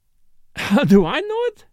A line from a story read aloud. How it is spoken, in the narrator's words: with a laugh